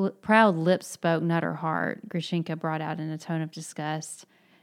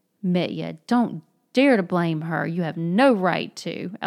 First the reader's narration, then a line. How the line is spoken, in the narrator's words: Alyosha cried hotly